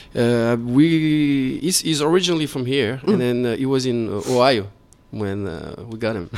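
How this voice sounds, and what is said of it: French accent in English. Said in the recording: “Got the French English accent... TH is very difficult for French people.”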